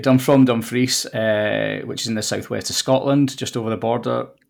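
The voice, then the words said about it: Scottish accent. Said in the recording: “you've got a Scottish accent”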